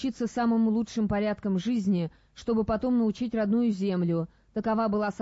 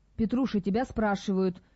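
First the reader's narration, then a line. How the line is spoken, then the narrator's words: Whisper. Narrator (Russian): шепнул ему Тихон Стришнев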